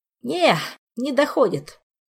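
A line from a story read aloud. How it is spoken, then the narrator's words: Regretful sigh. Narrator (Russian): с сожалением вздохнул Тофи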